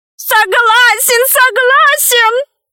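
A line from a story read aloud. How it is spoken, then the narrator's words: Shouted. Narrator (Russian): закричал пигмей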